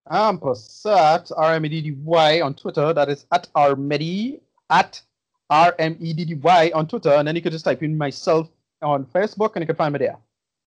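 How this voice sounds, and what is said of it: Suddenly speaks with a put-on accent. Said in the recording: “Not sure why you picked up an accent there”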